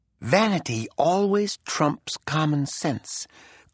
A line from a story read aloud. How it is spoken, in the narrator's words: Kuhlman had whispered to Buck